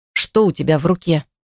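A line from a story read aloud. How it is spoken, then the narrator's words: Icy question. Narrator (Russian): Ледяным тоном спросил он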